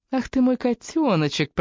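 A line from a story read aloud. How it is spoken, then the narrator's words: Cooing. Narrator (Russian): проворковала я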